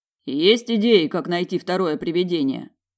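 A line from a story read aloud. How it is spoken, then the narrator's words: Deep bass voice. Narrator (Russian): пробасил Олан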